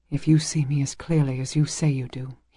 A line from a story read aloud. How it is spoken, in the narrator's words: whispered